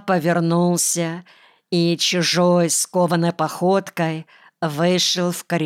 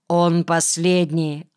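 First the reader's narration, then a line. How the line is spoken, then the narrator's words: Plain answer. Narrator (Russian): ответил майор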